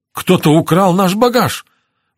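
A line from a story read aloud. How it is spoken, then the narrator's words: Exclamation. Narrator (Russian): воскликнул шофер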